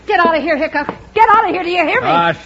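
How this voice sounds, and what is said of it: Yelling woman. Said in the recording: “Stop yelling”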